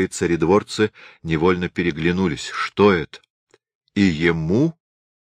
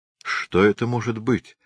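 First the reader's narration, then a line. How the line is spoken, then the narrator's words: Quiet. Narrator (Russian): тихо сказал Долгорукий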